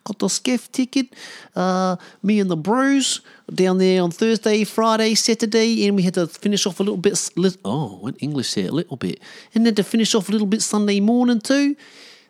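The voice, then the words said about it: Imitated New Zealand accent, imperfect. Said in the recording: “I feel like I've butchered my Kiwi accent now ... This is my Kiwi accent. Probably not the best, but you've probably heard worse too. Apart from the little English twang I threw in there a couple of times.”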